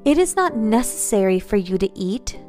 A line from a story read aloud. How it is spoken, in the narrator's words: Samael said kindly